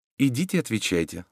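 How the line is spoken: Plain. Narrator (Russian): сказала баронесса

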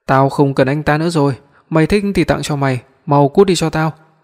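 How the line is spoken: Very upset loud shout. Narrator (Vietnamese): Tôi vô cùng buồn bực hét lớn

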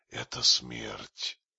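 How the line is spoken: Furious hiss. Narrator (Russian): с бешенством, ожесточенно шипела

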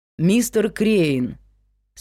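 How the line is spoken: Calm call. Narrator (Russian): спокойно позвал Эрик Палмер

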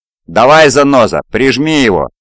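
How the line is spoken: Excited shout over radio. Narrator (Russian): прокричал в ларингофон возбужденный Кнут

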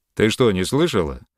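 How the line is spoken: Rough question. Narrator (Russian): так же грубо, как перед тем его спутник, спросил Йолн

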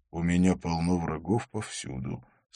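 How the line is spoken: Calm. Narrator (Russian): сказал он спокойно

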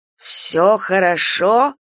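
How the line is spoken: Hissed. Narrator (Russian): прошипел дубовик

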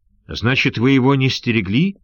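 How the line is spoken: Shouting. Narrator (Russian): закричал тигр Малайзии

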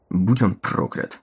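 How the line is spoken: Calm, level, disgusted. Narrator (Russian): Спокойно, не повышая голоса, с отвращением произнес Келлог

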